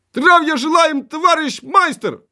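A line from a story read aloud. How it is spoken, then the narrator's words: Cheerful discordant group shout. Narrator (Ukrainian): У розлад весело крикнули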